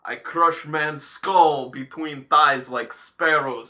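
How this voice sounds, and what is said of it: Failed Russian accent, Zangief impression. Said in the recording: “I was going to do a Russian accent, and that totally didn't work ... I was trying to do kind of like a Zangief type thing ... like a Cossack, Russian Cossack ... but it came out like Fat Bastard”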